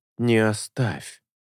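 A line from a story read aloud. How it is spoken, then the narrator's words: Pleading. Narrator (Russian): взмолиться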